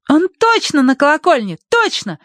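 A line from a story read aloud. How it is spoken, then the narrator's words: Excited exclamation. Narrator (Russian): воскликнула Агнес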